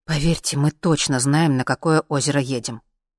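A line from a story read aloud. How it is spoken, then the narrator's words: Irritated reply. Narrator (Russian): отозвался Сережа раздраженно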